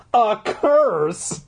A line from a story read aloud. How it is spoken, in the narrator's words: You laugh